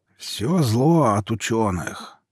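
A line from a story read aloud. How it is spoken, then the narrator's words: Creaky grumbling old man. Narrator (Russian): проворчал скрипучим голосом старик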